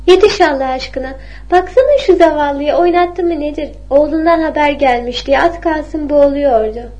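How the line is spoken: Laughing. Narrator (Turkish): diye güldü

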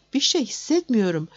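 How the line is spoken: Groaning. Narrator (Turkish): dedi inleyerek

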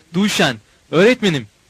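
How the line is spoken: Shouting. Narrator (Turkish): diye bağırdım

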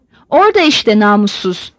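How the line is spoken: Grumbled. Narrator (Turkish): diye homurdandı

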